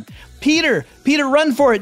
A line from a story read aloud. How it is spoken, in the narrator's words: yells Gwen